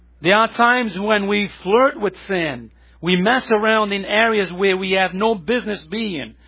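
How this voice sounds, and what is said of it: Speaker's own accent. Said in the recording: “I always confuse this name because of my accent here”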